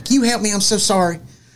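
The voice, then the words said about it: Put-on Southern accent. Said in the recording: “she's got a southern accent.”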